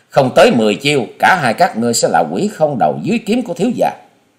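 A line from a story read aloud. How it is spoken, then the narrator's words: Loud mocking laugh. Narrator (Vietnamese): Hòa Sĩ Kiệt cười lớn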